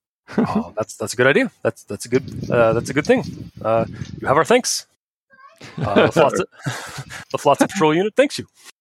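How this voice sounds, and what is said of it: Yogi Bear-style cartoon character voice. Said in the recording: “I really like your Yogi Bear you're doing right now.”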